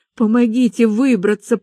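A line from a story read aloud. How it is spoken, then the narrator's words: Hoarse rasp. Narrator (Russian): прохрипела я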